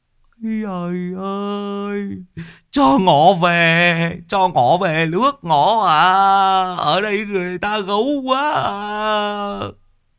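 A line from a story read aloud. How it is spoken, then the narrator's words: Old man whimpering tearfully. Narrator (Vietnamese): lão mếu máo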